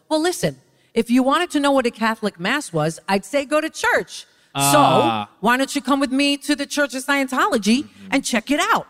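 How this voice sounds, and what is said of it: Imitates another person's voice. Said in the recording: “my Leah impersonation”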